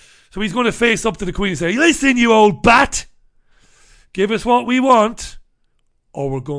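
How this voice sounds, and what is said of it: Usual voice. Nothing is said of it.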